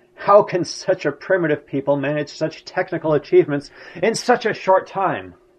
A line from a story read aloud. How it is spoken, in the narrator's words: Hitler exclaimed in exasperation